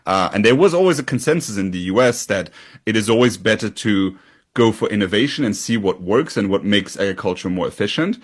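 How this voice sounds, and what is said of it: European accent. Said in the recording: “you can hear this from my accent, I'm a European”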